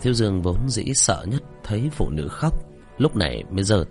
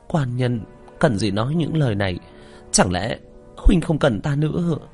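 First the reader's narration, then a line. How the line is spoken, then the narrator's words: Choked, trembling voice. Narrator (Vietnamese): đột nhiên nghẹn ngào run run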